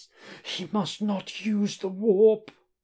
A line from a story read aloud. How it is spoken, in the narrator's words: cries Judge Mortis